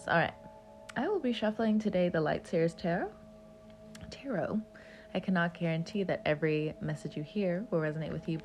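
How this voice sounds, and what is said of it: Congested, slightly off voice from cold. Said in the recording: “my voice is a little weird ... I got a chest cold ... it's slightly affecting my sinuses, so if I sound a little off”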